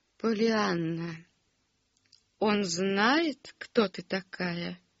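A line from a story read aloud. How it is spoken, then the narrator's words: Meek, gentle. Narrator (Russian): Неожиданно кротким голосом осведомилась она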